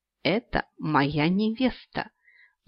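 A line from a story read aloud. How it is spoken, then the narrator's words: Hissed, syllable by syllable. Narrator (Russian): едва ли не по слогам прошипел Сыри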